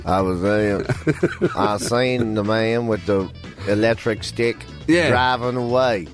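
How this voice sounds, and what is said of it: Imitates another person's voice. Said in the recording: “I can't do a Tommy Lee Jones accent”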